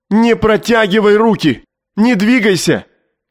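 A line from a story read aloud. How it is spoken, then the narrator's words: Hysterical shout. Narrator (Russian): Истерически закричал Губерман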